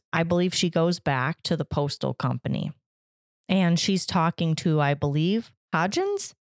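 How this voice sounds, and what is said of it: Raspy voice. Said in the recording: “I'm getting the raspy voice. ... Yeah, you are.”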